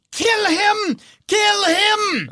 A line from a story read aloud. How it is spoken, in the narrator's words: Ludmilla screams